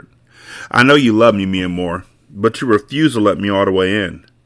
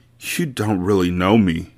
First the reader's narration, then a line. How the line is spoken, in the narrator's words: Mia Moore moaned